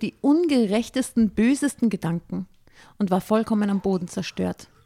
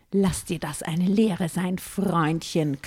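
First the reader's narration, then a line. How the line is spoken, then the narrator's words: Growled. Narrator (German): knurrte ich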